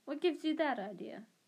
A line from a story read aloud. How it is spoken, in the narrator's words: he said sharply